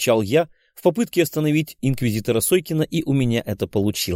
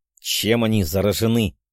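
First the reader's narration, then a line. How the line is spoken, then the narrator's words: Irritated, forced out. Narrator (Russian): раздраженно выдавил из себя Сойкин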